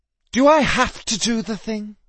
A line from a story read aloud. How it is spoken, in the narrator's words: Justin groaned